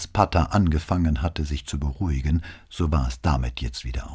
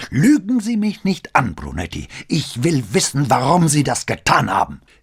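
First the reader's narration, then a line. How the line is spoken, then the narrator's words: Roaring. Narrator (German): brüllte er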